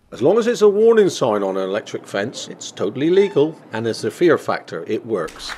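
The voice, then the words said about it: Speaks with a noticeable accent. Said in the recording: “if he says it in that accent, it sounds true.”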